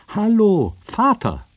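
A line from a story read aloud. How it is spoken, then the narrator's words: Calling out again. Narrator (German): rief sie nochmals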